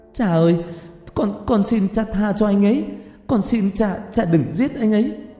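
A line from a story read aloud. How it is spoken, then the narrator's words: Tearful wailing scream. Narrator (Vietnamese): Tiểu Lan càng dãy giụa gào thét trong nước mắt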